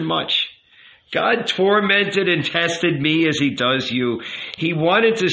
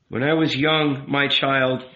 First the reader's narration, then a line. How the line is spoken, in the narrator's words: the rabbi said with a sigh